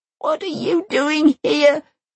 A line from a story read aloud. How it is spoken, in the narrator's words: She sobs